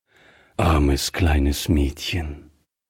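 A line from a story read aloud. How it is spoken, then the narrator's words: Gentle voice. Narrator (German): sagte Griffier sanft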